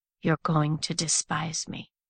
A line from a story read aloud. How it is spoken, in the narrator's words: he murmured